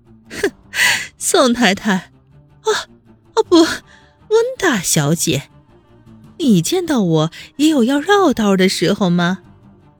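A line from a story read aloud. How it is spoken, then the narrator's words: Cold sneer. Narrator (Chinese): 温之夏冷笑了一声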